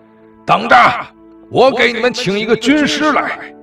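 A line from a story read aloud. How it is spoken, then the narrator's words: Shouting. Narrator (Chinese): 王震冲他们大喊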